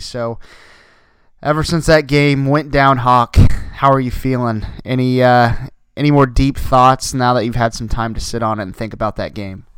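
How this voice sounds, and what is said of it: Scratchy, recovering lost voice. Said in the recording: “My voice has went out here today. I'm starting to get it back, but still a little bit scratchy.”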